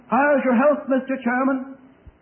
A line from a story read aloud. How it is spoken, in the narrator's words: someone shouted